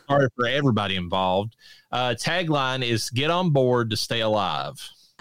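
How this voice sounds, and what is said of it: Appalachian accent. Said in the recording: “this Appalachian, accent”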